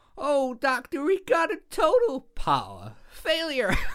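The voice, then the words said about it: Imitates slipping American accent. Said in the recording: “her accent... She just completely slips the voice... how anybody thought she was American”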